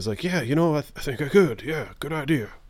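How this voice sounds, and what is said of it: Impression of Lattimore. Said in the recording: “that's a great impression of Lattimore”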